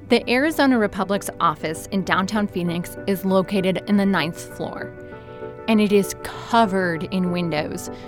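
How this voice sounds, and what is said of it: Slight Wisconsin accent, distinctive A. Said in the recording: “a bit of an accent, especially in how I pronounce the letter A ... from Milwaukee, Wisconsin”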